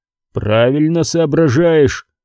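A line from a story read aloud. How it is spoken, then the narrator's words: Grumbled. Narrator (Russian): пробурчал Джо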